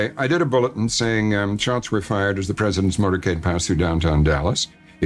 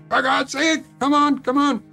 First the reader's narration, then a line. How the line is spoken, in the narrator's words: I was screaming into the phone